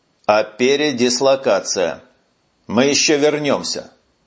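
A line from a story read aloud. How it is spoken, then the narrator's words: Soldier's menacing promise. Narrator (Russian): грозно пообещал сержант-контрактник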